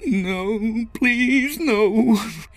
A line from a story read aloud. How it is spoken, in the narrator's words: whimpered